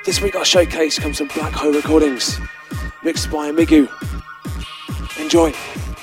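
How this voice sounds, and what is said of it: Losing voice, sounds sick. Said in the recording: “I'm losing my voice because I've got a cold”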